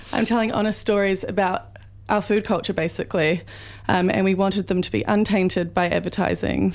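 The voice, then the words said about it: Croaky voice. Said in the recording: “my voice is a bit croaky ... everyone's a bit croaky at the moment”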